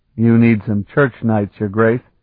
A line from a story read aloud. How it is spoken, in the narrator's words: Sparhawk said in a bleak tone of voice